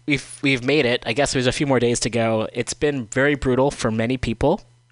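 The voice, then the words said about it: Sick, under-the-weather voice. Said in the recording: “If you can tell from my voice, I'm a little bit under the weather. Coming out of it, though”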